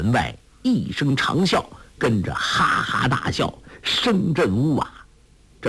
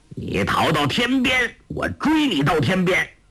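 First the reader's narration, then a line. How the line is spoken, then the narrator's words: Shout. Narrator (Chinese): 欧阳锋的声音叫道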